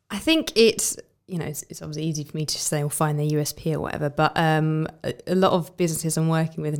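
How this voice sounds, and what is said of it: Usual voice. Nothing is said of it.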